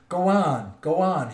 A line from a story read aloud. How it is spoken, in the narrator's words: shouted